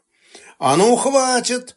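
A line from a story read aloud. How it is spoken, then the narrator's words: Guards yelling. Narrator (Russian): заорала охрана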